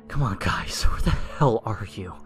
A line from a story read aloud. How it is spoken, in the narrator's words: I whispered